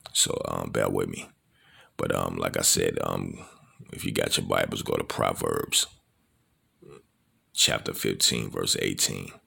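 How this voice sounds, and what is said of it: Sleepy, tired voice. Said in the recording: “excuse me, it's 2 something in the morning. I'm sleepy. So that's why my voice is like this.”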